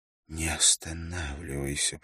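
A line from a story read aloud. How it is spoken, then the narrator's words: Moaning. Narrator (Russian): простонала она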